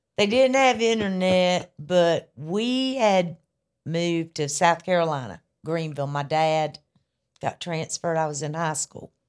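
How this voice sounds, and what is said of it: Charlotte, North Carolina Southern accent. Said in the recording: “Am from Charlotte, North Carolina. You can tell by that weird accent.”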